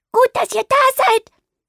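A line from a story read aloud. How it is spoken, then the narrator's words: Chirping robin. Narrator (German): piepst das Rotkehlchen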